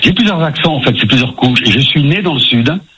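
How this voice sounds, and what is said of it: Slight sing-song southern French accent. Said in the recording (French): “Parce qu'il y a un petit accent ... vous avez gardé quand même un peu ce petit accent chantant”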